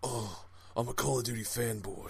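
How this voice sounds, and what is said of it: Lowered-pitch character voice. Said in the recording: “My voice is a few decimals lower”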